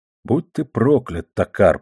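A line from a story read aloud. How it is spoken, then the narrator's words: Mutter. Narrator (Russian): пробормотал Боманс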